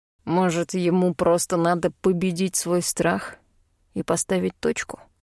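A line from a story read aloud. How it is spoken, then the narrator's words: Quiet question from wolf. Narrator (Russian): тихо спрашивает волк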